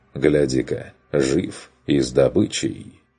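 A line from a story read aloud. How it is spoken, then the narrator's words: Mocking. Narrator (Russian): Шарфюрер обронив насмешливо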